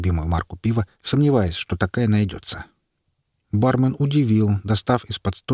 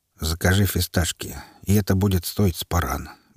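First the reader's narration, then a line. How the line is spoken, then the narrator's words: Quiet curt remark. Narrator (Russian): бросил тихим голосом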